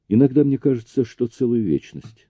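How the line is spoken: Sad reply. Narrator (Russian): ответила она печально

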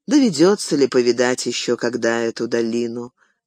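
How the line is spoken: Quiet sigh. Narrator (Russian): тихонько вздохнул он

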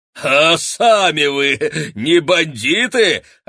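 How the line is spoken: Laughing loudly. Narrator (Russian): расхохоталась она

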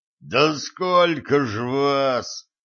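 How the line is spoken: Groaning dwarf. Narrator (Russian): простонал гном

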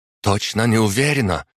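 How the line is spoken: Frightened. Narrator (Russian): испуганно ответила девушка, так как боялась, что если от нее что-то будет зависеть, и она не справится, то ее обвинят во всем остальном

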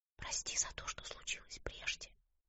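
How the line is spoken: Whispered. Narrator (Russian): прошептала она

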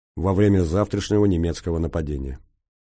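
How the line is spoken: Hesitant, then firm. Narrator (Russian): Комбат на миг запнулся, словно не решаясь окончить фразу, но все же произнес твердым голосом

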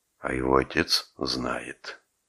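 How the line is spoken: Quiet. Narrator (Russian): сказал тихо Рэмси

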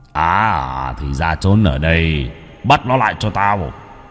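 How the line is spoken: Gruff, booming. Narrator (Vietnamese): Tên này cất tiếng ồm ồm

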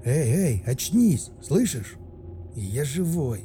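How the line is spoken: Mumbled. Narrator (Russian): Промямлил

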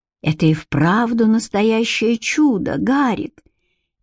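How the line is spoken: Quiet. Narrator (Russian): тихо сказала Элоиза

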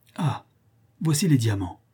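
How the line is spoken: Exclamation. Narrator (French): s'écria Sir Henry

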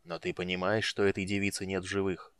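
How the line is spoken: Quiet question. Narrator (Russian): тихо спросил Хан

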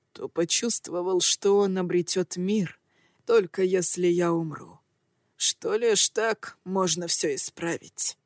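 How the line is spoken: Bitter laugh. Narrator (Russian): Он горько хохотнул

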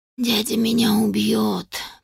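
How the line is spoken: Whispered, weary repetition. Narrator (Russian): прошептала я уже в сотый раз

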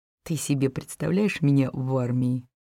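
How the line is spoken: Giggling. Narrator (Russian): хихикает Сик

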